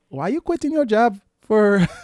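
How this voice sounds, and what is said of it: Put-on Caribbean accent. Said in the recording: “Caribbean mamas aren't having it ... I try to do that accent”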